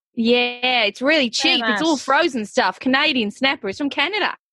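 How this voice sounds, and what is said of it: Convincing put-on Australian accent. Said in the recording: “you can do an Aussie accent ... You're so good at them ... You do an unreal Aussie accent. You really do.”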